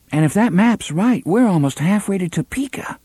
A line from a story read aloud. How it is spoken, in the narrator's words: Susanna said in a tight voice